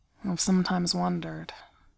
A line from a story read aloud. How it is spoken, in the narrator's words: he says, tongue thick and voice slurred